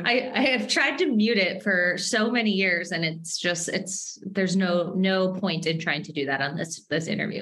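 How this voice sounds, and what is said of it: Minnesota accent. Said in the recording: “My Minnesota accent is definitely going to come out”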